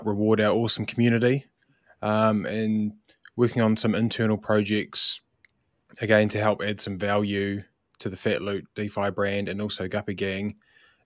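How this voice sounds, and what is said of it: New Zealand accent. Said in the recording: “As you can maybe tell from my accent, I'm from sunny New Zealand”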